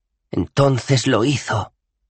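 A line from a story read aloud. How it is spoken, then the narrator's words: Sighing. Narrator (Spanish): suspiró Wert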